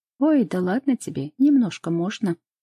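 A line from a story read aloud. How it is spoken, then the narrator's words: Brisk dismissive. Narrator (Russian): бодро отмахивается Оля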